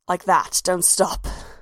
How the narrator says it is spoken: she finally growled

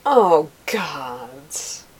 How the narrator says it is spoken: Abella exclaimed

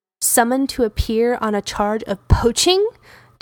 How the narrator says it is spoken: Derek yells, anger rolling out of him until it reaches everyone

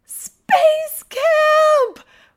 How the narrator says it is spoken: Riley squeals

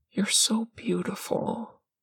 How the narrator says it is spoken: Parm whispers

